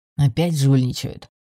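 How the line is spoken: Grumbling spectator. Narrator (Russian): пробурчал один из зрителей

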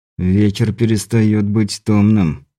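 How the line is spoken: Through clenched teeth. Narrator (Russian): процедил Андрей сквозь зубы

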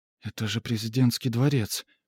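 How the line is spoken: Whispered. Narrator (Russian): прошептала Сесиль

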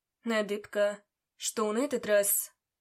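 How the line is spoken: Tired question. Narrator (Russian): Устало спросил

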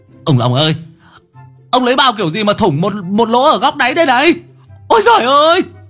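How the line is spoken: Startled shriek. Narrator (Vietnamese): cậu giật mình rú lên

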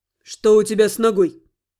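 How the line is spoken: Stern question. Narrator (Russian): строго уточнил Гал у Эльки

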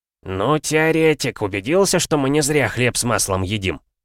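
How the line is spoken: Amused snort. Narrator (Russian): хмыкнул толстяк

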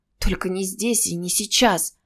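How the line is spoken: Flustered mumbling. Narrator (Russian): бормотала она, растерянная внезапным напором

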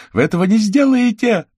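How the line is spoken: Shouted. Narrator (Russian): закричала она

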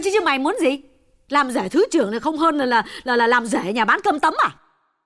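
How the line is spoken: Loud interruption. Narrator (Vietnamese): Bà mẹ lớn tiếng ngắt lời

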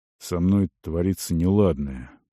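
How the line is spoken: Quiet. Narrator (Russian): сказал тихо

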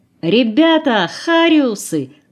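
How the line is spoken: Distant shout. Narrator (Russian): уже кричал только с другого берега

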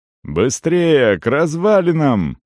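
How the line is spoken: Shout. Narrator (Russian): крикнул он парню

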